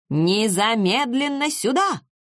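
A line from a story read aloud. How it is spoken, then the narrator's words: Menacing shout. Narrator (Russian): закричал Эйфенбах вполне грозно и немного страшно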